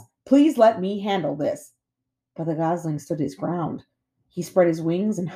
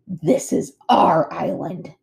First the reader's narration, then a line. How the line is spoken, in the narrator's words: snarled Nettle